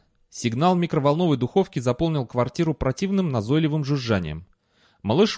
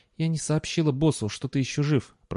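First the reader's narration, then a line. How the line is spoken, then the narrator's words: Whisper. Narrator (Russian): прошептал Энн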